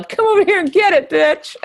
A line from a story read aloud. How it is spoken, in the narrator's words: another woman yelled